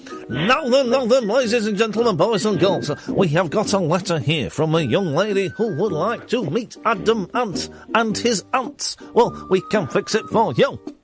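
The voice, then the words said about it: Poor imitation of another person's voice. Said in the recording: “To do Jimmy Savile impressions again? ... Not a good one.”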